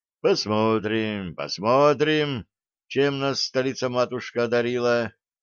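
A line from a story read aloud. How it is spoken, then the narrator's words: Heavy sigh, muttering. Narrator (Russian): тяжело вздохнул, пробормотав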